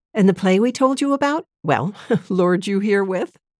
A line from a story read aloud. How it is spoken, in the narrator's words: laughed